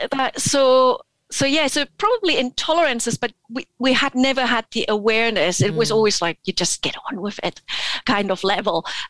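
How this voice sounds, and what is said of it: Mixed Scottish and German accent. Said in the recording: “I can sense a bit of Scottish, I can sense a bit of German in there”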